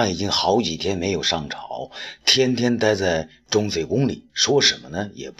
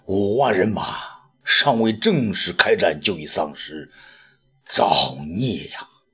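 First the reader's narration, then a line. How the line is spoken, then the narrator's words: Regretful sighing lament. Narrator (Chinese): 卫青是扼腕叹息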